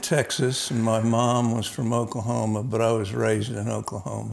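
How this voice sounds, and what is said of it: Slight Southern US accent. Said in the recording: “You got a little bit of an accent, I'd assume probably Texas.”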